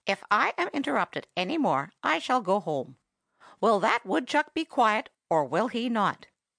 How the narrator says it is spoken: said the parrot sharply

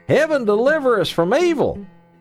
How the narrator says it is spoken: cried the farmer

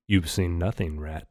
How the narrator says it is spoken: Phineas said calmly

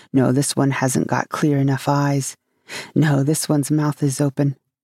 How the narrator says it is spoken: muttering

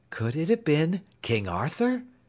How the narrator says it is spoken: exclaimed Dorothy, wide-eyed with interest

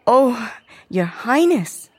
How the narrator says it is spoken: Caroline stammered at last

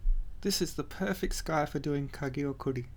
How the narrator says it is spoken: he muttered

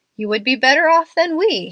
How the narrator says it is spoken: he replied, laughing

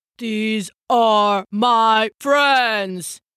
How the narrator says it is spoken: the half-giant roared

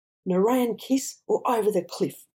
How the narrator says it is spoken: roared Necro

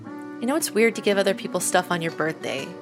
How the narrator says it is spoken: says

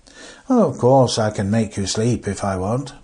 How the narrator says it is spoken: said Frank in a rather bored voice

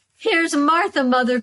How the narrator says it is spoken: cried the two young Cratchits

